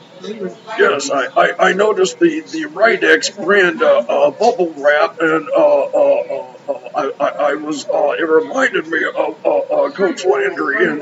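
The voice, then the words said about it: Stiff, rigid sportscaster voice. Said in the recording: “I'll be Troy Aikman ... I just have to talk like my neck is made of concrete”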